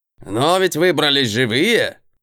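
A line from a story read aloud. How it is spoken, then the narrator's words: Snorting. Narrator (Russian): Хмыкнул тот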